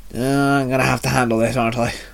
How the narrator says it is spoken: Shinzo muttered

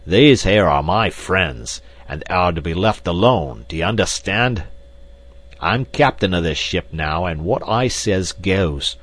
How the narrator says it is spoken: With a loud roar, Black Michael cried

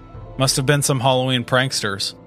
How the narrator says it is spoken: said, his tone dismissive

